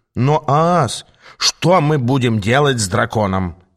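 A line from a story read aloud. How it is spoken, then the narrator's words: Snide question. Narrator (Russian): ехидно спросил Аас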